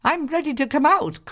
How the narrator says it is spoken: cried the bread

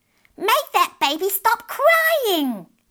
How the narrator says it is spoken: They shouted crossly at Margaret

